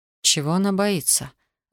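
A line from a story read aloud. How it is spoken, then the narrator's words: Relieved sigh. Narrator (Russian): Александр облегченно вздохнул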